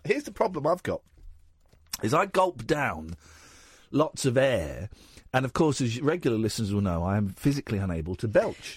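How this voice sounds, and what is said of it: Congested voice from a cold. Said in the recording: “I've got a cold ... I've got a cold.”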